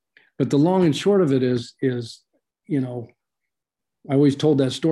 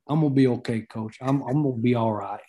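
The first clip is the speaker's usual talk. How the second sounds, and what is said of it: Put-on Southern twang. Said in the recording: “he had that Southern twang from Nashville”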